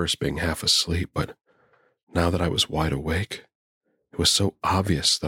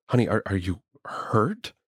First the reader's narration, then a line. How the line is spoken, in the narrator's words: asked, my voice shaking